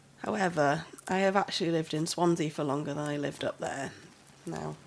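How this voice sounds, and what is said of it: Northern English Lancashire accent. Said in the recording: “That accent, that's not Welsh, is it? ... I'm from up north, a little place called Ramsbottom, up in Lancashire. ... It's a lovely accent.”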